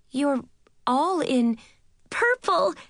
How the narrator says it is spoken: I cried, twirling around in my dress

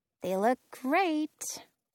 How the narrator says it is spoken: Penny mutters

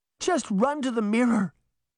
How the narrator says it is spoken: Daphne begged

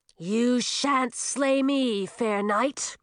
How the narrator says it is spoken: growled Millie

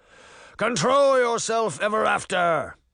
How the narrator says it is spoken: bellowed a voice

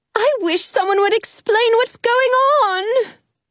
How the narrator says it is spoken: Alice moans

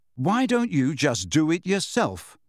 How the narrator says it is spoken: he said firmly, his eyes watering

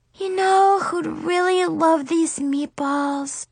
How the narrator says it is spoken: She sighed sadly

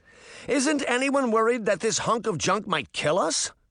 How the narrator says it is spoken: she cried

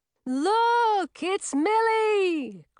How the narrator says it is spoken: Chlorine shouted in her loud and distinctive voice

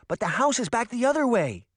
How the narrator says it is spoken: Daphne cried

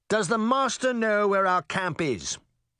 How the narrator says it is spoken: Charming barked

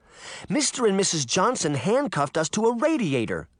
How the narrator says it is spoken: Sabrina cried

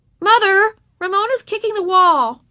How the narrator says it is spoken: cried Tattletale Beezus, as if her mother did not know what Ramona was doing

